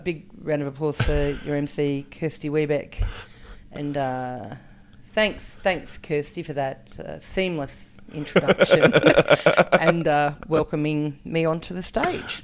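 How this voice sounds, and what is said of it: Slow, soft, dry Dan Connell impression. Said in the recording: “so dry understated in his delivery ... good Dan Connell impersonation. ... With the pauses and stuff. ... really slow. Really like he's slow. Thinking about every word. ... he's so soft. ... talking really quietly”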